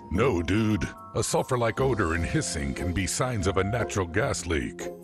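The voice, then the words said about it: Deep-voiced narrator. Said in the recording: “deep voice narrator”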